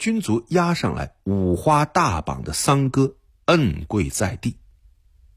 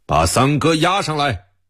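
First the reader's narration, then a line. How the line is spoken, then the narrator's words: Loud. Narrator (Chinese): 安童大声地说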